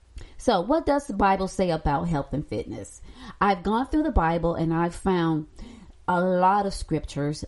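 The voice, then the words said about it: Noticeably affected speaking voice. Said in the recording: “excuse my voice. I do have allergies.”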